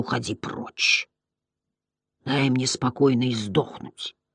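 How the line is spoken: Quiet growl. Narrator (Russian): тихо прорычал

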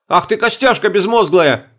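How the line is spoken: Shouted. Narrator (Russian): закричал я

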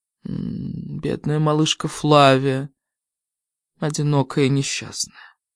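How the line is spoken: Tender, wry. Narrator (Russian): сказала она, ласково глядя в мои глаза и криво улыбнувшись

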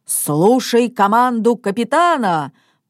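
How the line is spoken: Sudden thunderous shout. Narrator (Russian): вдруг закричал папа громовым голосом

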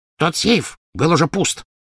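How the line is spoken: Snapping retort. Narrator (Russian): огрызнулся гоблин

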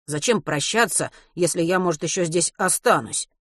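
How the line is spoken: Grumbling. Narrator (Russian): проворчал Матвей

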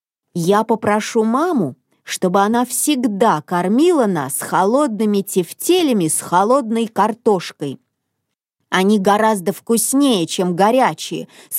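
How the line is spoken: Plain. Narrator (Russian): сказал он

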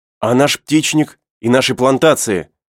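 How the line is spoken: Exclaimed. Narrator (Russian): воскликнул Герберт

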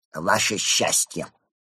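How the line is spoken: Through gritted teeth. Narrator (Russian): процедил посланник

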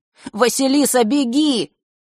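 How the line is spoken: Shout. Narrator (Russian): крикнул Фэш

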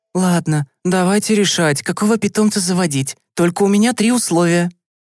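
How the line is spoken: Heavy sigh, weary. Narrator (Russian): мама тяжело вздохнула и сказала

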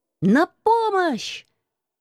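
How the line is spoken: Inner voice exclaiming. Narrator (Russian): воскликнуло внутреннее сильное

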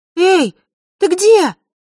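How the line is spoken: Shout through cupped hands. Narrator (Russian): Василиса, сложив руки рупором, прокричала

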